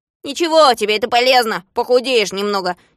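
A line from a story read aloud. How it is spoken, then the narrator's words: Angry reply. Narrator (Russian): сердито ответил Незнайка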